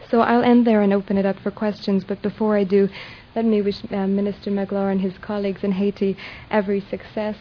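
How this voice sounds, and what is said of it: Non-American, international accent. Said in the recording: “you can hear in ... accent the international component”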